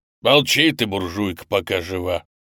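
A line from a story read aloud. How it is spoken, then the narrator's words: Growled. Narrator (Russian): рыкнул на нее оператор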